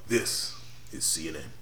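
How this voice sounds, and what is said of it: Deep announcer voice. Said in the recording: “You have that deep, nice James Earl Jones announcer voice.”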